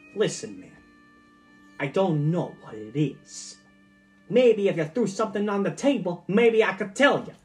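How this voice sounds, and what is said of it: Random put-on accent. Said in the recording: “has a random accent.”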